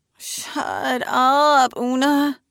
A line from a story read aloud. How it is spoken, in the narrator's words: Trevor says, mournfully